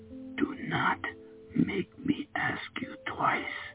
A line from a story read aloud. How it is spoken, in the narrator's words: I whispered